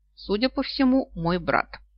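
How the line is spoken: Calm. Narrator (Russian): спокойно ответил

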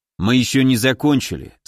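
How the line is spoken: Calm. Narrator (Russian): спокойно сказал Тимур

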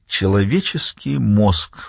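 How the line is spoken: Sighing. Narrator (Russian): вздохнул он

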